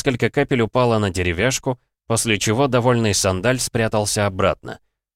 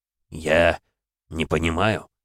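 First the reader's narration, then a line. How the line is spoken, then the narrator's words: Muttering. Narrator (Russian): пробормотал тот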